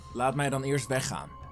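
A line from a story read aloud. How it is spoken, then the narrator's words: Plain. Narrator (Dutch): zei Kanjil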